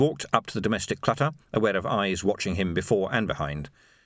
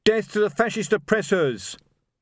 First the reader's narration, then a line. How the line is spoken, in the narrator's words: a voice shouted